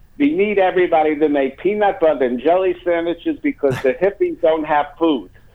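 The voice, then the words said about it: Put-on Jewish accent. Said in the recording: “in her Jewish accent.”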